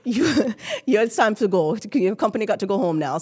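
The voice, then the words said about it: Put-on Jamaican accent. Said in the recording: “I had a best friend from Jamaica. And this is how her mother talked to us all the time ... I can do an accent pretty good”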